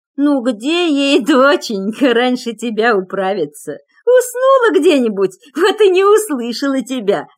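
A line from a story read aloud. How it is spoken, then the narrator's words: Old woman laughing. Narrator (Russian): засмеялась баба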